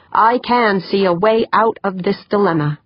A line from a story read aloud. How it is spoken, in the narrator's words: he said, his voice stronger